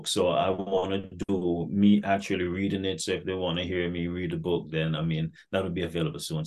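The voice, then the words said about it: Jamaican Caribbean accent. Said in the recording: “You had a cool accent. You got a cool accent ... I didn't know you're from Jamaica until you hit that link and I heard that accent ... sounds like he's from the Caribbean.”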